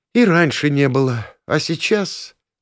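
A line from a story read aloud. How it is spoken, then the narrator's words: Sighing aloud. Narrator (Russian): вздохнула она вслух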